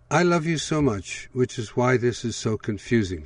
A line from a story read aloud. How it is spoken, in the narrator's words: she said